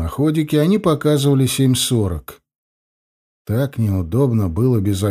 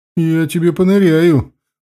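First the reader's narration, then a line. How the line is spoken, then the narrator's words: Exclaiming. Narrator (Russian): воскликнула бабуля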